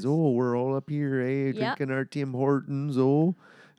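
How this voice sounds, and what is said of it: Exaggerated stereotypical Canadian accent. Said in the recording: “everybody thinks, like, a Canadian accent is... that's like the North Dakota, Minnesota accent”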